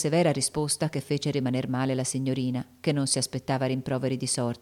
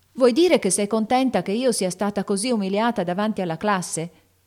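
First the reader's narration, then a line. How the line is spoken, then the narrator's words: Shouting. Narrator (Italian): gridò Amy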